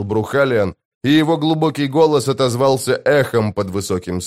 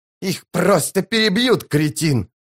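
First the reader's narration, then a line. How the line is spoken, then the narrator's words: Shrieking. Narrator (Russian): завизжал Рад Престол Тени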